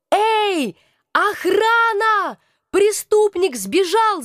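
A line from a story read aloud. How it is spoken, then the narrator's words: Shouting. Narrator (Russian): закричала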